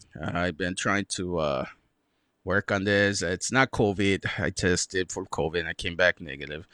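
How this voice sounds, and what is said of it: Stuffy, congested, slightly strained voice. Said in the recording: “if I sound weird, I'm sorry. It's my throat. I've been sick with a damn cough and a sore throat ... sorry if I sound a little stuffy or my voice sounds weird”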